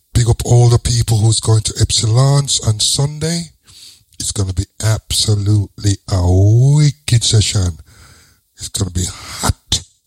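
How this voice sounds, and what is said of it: Birmingham (Brummie) English accent. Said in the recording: “I try the London accent still. But I brummy, so I got to stick with my brummy.”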